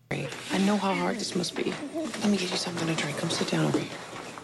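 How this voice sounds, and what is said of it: American accent. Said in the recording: “you have an American accent in this.”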